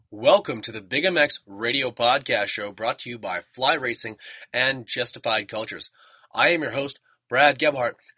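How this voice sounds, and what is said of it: Hoarse, sore-throated voice. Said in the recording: “As you can tell, I've got a bit of a sore throat and I'm a bit under the weather today”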